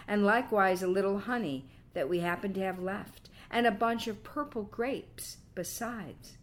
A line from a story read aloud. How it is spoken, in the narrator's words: cried Baucis